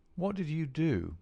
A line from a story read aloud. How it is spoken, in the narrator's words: he asked